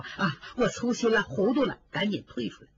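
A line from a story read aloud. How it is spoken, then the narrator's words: Frightened servant, hurried appeasing laugh. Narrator (Chinese): 吓得这个仆人急忙陪笑说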